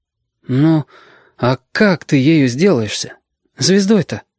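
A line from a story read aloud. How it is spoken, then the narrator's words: Timid. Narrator (Russian): робко сказал ёжики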